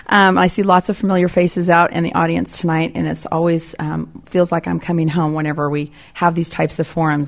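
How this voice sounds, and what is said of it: Congested, sick-sounding voice. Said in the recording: “I apologize for my voice in advance. ... recovering from a cold”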